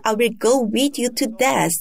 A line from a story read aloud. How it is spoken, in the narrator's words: one of the disciples excitedly said